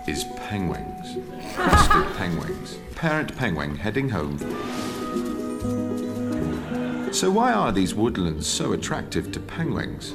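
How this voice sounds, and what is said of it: Native British accent. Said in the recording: “him in his native British accent, repeatedly failing to pronounce the word penguin”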